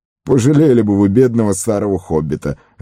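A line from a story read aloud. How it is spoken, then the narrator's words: Laughing. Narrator (Russian): рассмеялся Фродо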